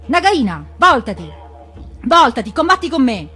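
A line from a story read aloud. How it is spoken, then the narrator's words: Shouted. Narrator (Italian): Ricky Ticchi si mise a gridare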